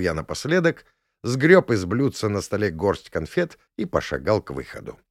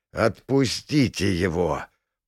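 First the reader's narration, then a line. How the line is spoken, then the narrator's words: Hoarse, impressed. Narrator (Russian): прохрипел барон, явно впечатленный возможностями предыдущего заклинания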